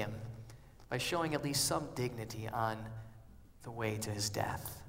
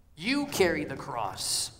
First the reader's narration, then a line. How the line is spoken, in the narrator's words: the soldier barks